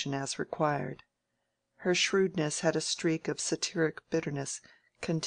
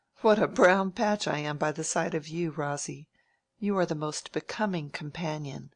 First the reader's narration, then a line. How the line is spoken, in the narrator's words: she said laughingly